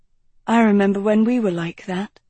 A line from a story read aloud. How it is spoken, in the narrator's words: Agatha sighed